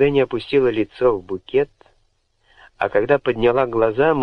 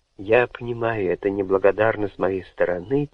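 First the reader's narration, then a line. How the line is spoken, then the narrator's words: Quiet. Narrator (Russian): тихо проговорила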